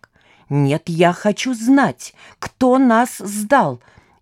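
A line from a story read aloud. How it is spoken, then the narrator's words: Shrieking. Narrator (Russian): визжала Лида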